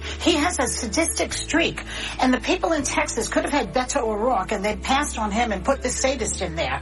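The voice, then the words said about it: Thick New York accent. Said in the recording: “New York thick accent”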